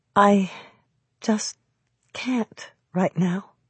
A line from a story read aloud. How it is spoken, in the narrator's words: I said softly